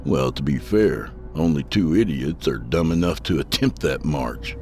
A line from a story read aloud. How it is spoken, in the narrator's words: I said with a chuckle